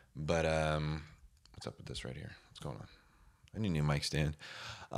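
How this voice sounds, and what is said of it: Deep, sick-sounding voice. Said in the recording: “I was sick. Maybe you can hear it in my voice still. Still real deep.”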